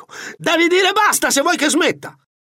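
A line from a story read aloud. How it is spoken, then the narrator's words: Shrieking while pounding. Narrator (Italian): strillò tempestando di pugni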